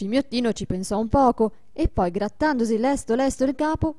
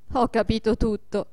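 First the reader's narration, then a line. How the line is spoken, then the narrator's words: Laughing. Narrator (Italian): disse Adolfo ridendo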